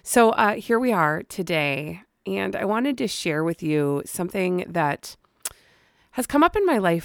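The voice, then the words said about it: Slightly strange-sounding voice. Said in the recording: “My voice is still a little weird”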